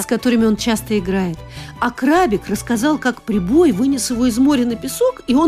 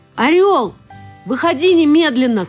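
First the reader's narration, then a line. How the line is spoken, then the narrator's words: Shouting. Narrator (Russian): крикнул ему Данилка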